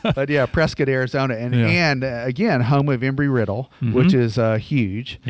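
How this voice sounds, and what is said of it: Southern American accent. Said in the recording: “I'm from the South ... You can tell by my accent.”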